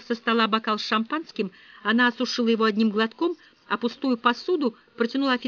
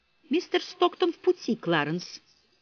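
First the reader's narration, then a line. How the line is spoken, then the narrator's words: Calm. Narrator (Russian): спокойно сказала она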